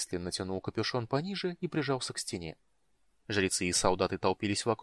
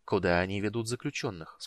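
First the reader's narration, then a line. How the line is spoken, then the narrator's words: Plain. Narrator (Russian): спросил маг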